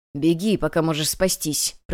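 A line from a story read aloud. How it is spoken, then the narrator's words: Hoarse rasp. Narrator (Russian): прохрипел советник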